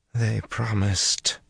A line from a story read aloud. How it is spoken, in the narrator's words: she mumbled to Rand